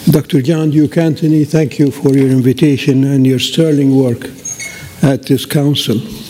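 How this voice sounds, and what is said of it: Voice affected by illness. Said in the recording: “excuse my voice. I'm coming out of the flu.”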